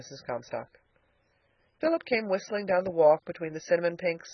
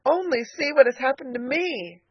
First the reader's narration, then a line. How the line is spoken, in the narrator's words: cried Elnora